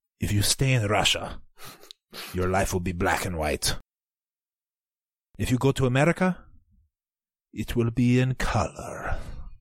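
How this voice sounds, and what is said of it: Put-on Russian accent. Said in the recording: “I'm gonna do it in a Russian accent.”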